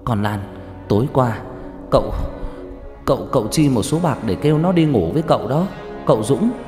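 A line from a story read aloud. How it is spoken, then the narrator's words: Harsh stern voice. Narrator (Vietnamese): Bà Xuân gằn giọng nói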